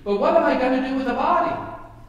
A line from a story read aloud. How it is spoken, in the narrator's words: Joanna said impatiently